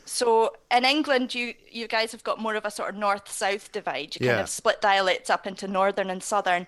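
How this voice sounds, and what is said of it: Eastern Scottish accent. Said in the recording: “the sounds that I'm making are quite different from the sounds that you're making... I don't think that's a Glasgow accent you've got... Not so much further north, but definitely east.”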